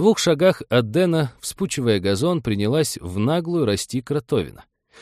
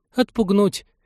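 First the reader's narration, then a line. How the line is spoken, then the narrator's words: Girl's belated babble. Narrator (Russian): Запоздало пролепетала девушка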